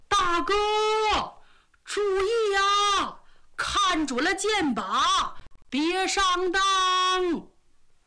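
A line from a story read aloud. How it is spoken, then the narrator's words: Shouting with full force. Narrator (Chinese): 他扯足了劲儿喊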